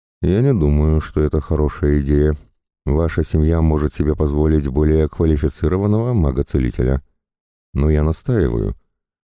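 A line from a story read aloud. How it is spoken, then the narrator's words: Calm reply. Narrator (Russian): Ами же спокойно ответила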